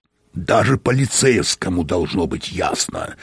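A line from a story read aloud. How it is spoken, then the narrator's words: Irritated growl. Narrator (Russian): раздраженно прорычал Мозес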